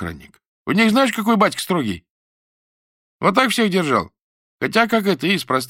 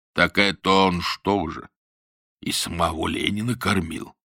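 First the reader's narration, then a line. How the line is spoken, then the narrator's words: Respectful deep voice. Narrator (Russian): уважительно пробасил какой-то новый голос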